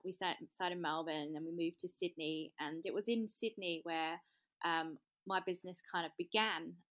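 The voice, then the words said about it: English Southeast London accent. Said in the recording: “You've got a bit of an accent there ... I am English. I come from Southeast London”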